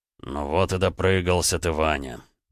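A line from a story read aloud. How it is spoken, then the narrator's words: Resigned sigh. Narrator (Russian): обреченно вздохнул граф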